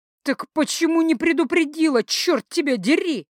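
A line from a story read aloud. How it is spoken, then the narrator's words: Furious howl. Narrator (Russian): Яростно взвыла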